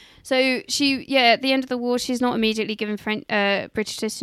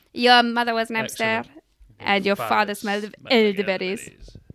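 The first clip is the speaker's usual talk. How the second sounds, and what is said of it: Exaggerated put-on French accent. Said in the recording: “That is an outrageous accent. Is that meant to be your French? ... I'm French. Can't you tell by my outrageous accent?”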